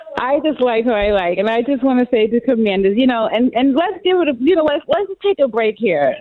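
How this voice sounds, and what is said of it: Slight New York accent. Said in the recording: “You got a slight accent that makes me think like Jersey or New York”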